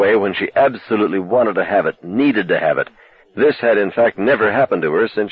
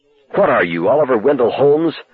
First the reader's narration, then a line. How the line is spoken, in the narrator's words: she rejoined fiercely, but her anger was in some measure overmastered by relief